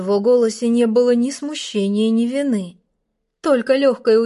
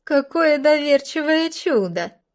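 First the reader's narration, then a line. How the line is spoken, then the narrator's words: Girl giggling. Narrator (Russian): Хихикнула одна из девушек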